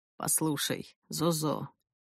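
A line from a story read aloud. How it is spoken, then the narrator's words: Weary. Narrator (Russian): произнес он устало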